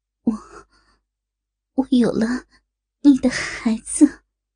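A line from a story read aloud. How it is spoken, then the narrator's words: Resolute, repeated. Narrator (Chinese): 狠狠一咬牙，一次次说道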